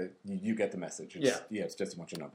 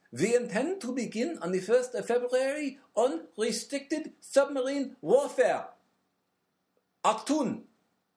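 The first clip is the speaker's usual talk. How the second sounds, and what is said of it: Weak put-on German accent. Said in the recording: “Should I do this in a German accent? ... If it's anything like your other accents, it won't help ... It'll sound remarkably like every other accent I've ever done.”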